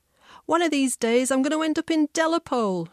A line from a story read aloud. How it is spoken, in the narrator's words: she'd yell